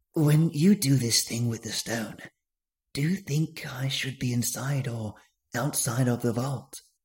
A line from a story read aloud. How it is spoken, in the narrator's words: he whispered